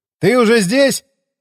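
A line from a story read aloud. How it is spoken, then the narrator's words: Shouted from downstairs. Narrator (Russian): крикнул я снизу лестницы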